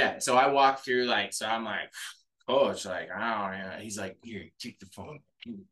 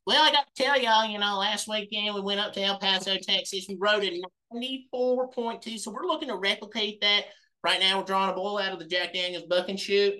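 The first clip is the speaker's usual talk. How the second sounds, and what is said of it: Imitates a rodeo bull rider's voice. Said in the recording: “good bull rider impression”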